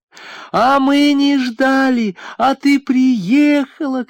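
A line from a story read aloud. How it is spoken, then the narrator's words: Shouting. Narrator (Russian): кричала Кама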